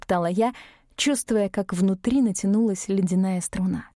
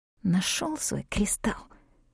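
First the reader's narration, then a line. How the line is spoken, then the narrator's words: Hissing. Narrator (Russian): прошипела я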